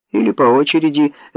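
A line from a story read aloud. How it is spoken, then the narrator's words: Laughing. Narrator (Russian): рассмеялась Барбара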